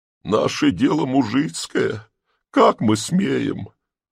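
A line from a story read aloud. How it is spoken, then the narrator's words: Sobbing woman. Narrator (Russian): начала была всхлипывая баба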